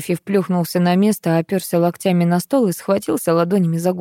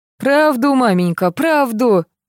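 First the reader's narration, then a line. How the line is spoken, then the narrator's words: Yelling again. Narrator (Russian): опять заорал Витя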